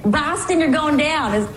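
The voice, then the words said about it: Put-on Boston accent. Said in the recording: “That's my best accent”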